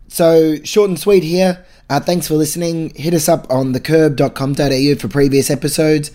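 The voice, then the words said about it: Rough, unwell-sounding voice. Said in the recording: “my voice is a little bit shit this episode”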